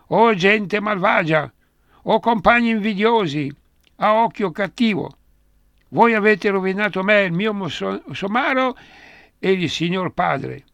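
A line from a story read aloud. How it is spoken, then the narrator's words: Continuous shouting. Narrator (Italian): continuava a gridare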